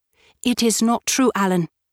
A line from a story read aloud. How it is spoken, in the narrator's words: I cried hotly